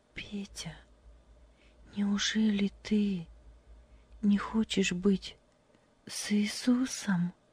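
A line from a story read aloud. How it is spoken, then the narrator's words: Quiet question. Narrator (Russian): тихо спросила Любочка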